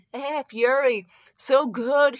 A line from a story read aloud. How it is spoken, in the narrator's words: he moaned out